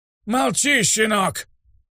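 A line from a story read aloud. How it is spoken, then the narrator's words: Furious shout, old man. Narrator (Russian): яростно крикнул старик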